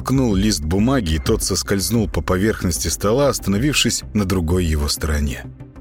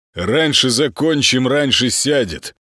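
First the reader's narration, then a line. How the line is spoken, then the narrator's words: Correcting, pleased snort. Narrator (Russian): поправил Молчин и довольно хмыкнул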